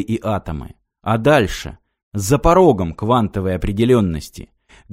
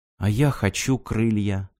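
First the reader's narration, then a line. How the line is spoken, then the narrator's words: Quiet. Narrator (Russian): тихо сказала Ирина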